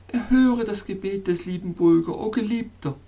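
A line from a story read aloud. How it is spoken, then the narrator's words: Pleading. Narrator (German): flehte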